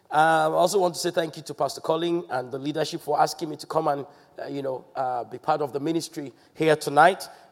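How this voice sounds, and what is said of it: Congested, nasal voice from cold. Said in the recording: “apologize for my voice. I have a little bit of cold... if I seem to be speaking through my nose, it's the cold”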